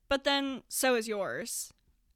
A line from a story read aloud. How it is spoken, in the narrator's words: Adam says